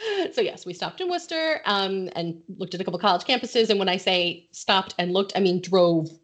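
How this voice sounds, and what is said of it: Usual voice. Nothing is said of it.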